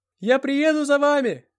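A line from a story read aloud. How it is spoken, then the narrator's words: Shout from a distance. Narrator (Russian): крикнул я уже из прохода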